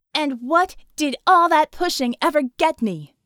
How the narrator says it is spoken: she shouted

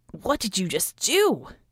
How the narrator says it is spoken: He exclaimed

